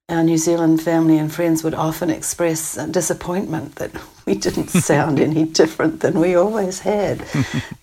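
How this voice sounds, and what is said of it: New Zealand accent. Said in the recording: “we didn't ever pick up a Canadian accent... we just kept our Kiwi accents”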